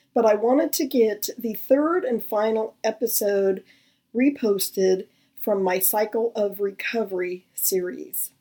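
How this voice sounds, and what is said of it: Unwell, cold-affected voice. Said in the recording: “Excuse my voice, I'm just getting over a cold”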